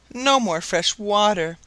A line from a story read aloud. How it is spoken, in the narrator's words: exclaimed all the poor creatures together